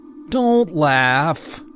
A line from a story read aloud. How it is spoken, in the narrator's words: he whined